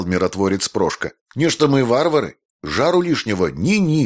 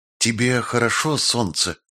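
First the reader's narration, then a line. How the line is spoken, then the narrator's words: Ghostly whisper in ear. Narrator (Russian): шепнул на ухо призрак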